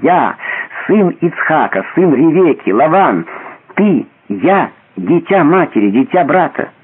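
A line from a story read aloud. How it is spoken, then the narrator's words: Soft cry. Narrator (Russian): Она тихо вскрикнула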